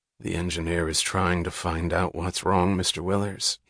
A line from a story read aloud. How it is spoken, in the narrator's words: he answered softly, in a tone implying that it was his duty to hope, but that he had held no hope for years